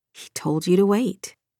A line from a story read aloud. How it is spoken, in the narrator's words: she muttered